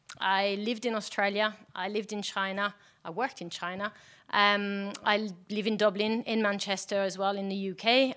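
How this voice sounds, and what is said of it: French accent in English. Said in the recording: “You can tell I have an accent. I'm French.”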